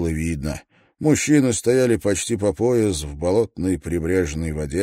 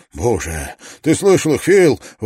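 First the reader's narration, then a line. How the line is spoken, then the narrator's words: Excited exclamation. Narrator (Russian): возбужденно воскликнул Барретт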